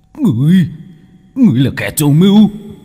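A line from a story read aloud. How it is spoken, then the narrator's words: Hissing. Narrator (Vietnamese): Tên thủ lĩnh rít lên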